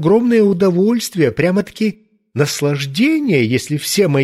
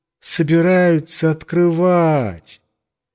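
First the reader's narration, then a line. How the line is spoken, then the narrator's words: Lazy interruption. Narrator (Russian): лениво перебил я волшебника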